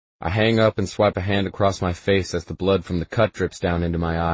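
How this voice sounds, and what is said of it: Usual voice. Nothing is said of it.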